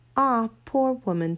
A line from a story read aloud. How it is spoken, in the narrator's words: said Uncle Andrew